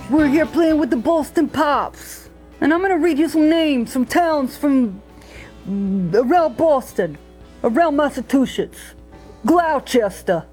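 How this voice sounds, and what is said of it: Unconvincing put-on Boston accent. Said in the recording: “using a Boston accent ... Her accent is, well, we'll just say interesting. ... I don't think she's ever going to have a great Boston accent.”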